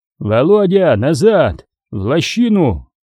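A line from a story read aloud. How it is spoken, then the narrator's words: Shouted command. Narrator (Russian): закричал старший лейтенант Нелюбин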